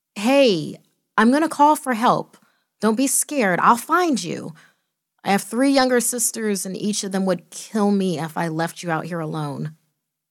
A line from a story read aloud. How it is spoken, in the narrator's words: I cried out